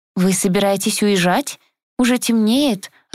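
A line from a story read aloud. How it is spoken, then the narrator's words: Timid, flustered. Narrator (Russian): робко произнесла Магда, несколько сбитая с толку моим напором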